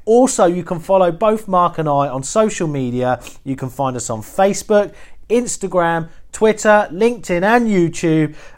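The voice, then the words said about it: Husky, slightly hoarse voice. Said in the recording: “I am hosting a bit of a cold today. So if you have sort of, heard a bit of a sexy, husky voice coming from me today, it's because I've got a bit of a cold.”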